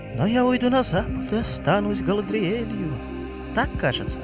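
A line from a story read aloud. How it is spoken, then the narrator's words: Soft laughter, woman. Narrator (Russian): Она тихо смеется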